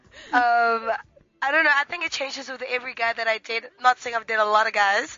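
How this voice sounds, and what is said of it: Hoarse voice. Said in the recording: “She has a hoarse voice.”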